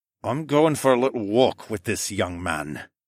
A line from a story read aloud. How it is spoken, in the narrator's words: Begbie said through gritted teeth